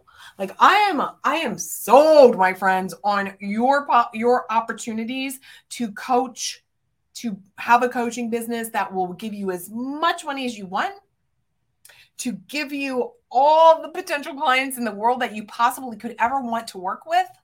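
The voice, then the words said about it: Enthusiastic, energetic delivery. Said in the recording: “You can hear it in my voice.”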